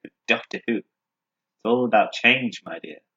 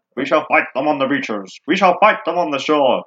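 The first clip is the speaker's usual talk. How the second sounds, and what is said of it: Gruff bulldog-like imitation of a statesman. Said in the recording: “your Winston Churchill impression ... you've got to sound like a bulldog ... No, that's not a pirate, a bulldog. You need more cheek.”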